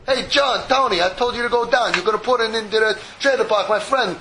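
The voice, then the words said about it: Put-on Italian accent. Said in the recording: “He's Italian now? ... he talks a little Italian.”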